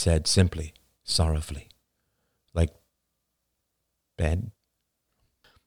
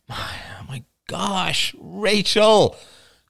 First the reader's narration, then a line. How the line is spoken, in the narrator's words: cried Ian in great frustration